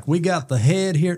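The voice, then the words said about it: Imitates another person's voice. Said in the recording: “terrible impression of Father Carey”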